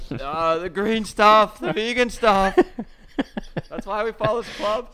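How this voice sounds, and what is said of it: Impression of the co-host. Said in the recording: “it's a great impression of me”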